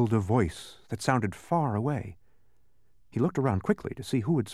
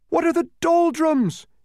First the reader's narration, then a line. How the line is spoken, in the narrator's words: he cried loudly